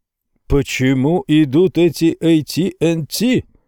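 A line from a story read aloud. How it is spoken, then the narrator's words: Familiar voice yelling. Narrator (Russian): вопил знакомый голос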